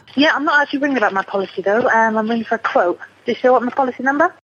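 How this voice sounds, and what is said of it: UK accent. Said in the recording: “That's her UK accent.”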